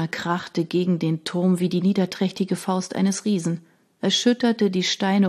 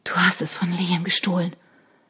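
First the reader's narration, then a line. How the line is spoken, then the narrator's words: Breathless. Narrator (German): endete Shona atemlos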